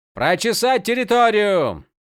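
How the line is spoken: Young warrior shouting. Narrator (Russian): крикнул молодой воин, голос которого показался Малфуриону знакомым

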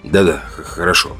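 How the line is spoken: Gruff mumble. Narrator (Russian): буркнул я

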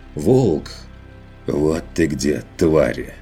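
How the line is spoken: Hissing, almost relieved. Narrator (Russian): Прошипел Ван Ален почти с облегчением

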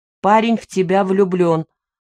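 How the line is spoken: Stern father. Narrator (Russian): так же строго сказал отец

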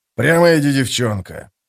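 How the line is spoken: Grumbled. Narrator (Russian): проворчал Беннет

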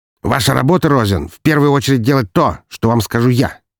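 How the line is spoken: Scoffing. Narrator (Russian): хмыкнул Игнатов

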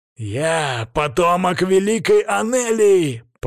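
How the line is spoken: Growled. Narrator (Russian): прорычал

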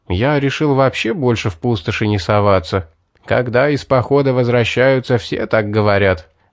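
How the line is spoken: Laughing. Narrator (Russian): рассмеялись охотники

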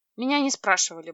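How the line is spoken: Grumbled. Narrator (Russian): буркнула я

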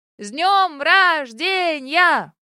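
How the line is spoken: Many-voiced crowd shouting. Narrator (Russian): прокричал многоголосый хор гостей

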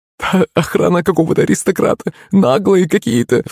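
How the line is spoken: Sobbing. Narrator (Russian): всхлипнула служанка

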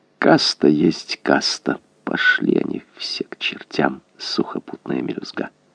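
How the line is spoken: Soft purring murmur. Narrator (Russian): он мурлыкал в черное окно

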